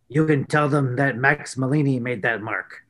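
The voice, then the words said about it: Gruff voice. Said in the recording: “in his gruff voice,”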